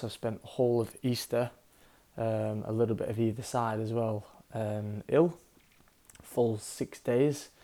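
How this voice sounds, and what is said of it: Slightly hoarse voice. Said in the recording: “hear it in my voice, but I'm a little bit hoarse.”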